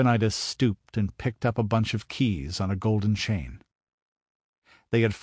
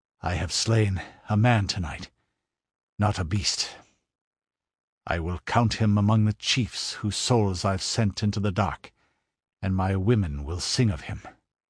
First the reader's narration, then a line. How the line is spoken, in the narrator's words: he panted